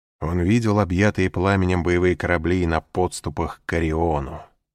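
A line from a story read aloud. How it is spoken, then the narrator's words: Plain. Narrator (Russian): сказал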